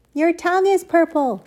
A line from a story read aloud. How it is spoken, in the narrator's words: screamed Fern